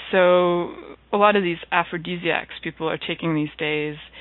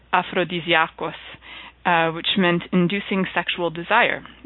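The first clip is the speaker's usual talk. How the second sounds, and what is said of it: Mock Greek accent pronunciation. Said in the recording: “I'm going to use my best Greek accent and pronounce it in my best Greek possible”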